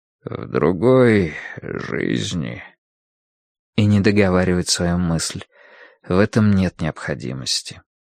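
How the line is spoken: Soft. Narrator (Russian): он мягко говорит

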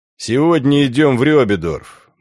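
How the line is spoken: Gloomy. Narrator (Russian): мрачно сказал Волдо

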